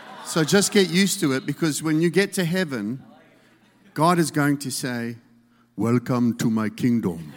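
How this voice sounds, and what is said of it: South African accent. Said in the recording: “He has a South African accent.”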